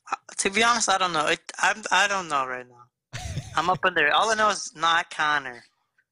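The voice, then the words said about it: Regional accent, sounds like. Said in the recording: “I like your accent. ... Instead of ... you're”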